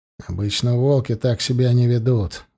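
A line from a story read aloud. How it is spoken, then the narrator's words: Gruff mutter. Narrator (Russian): буркнул он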